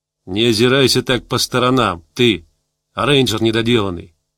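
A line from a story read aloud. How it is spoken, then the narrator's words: Hiss. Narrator (Russian): прошипел он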